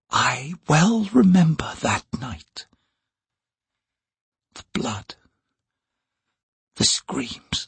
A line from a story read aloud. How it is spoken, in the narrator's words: her words fell to a whisper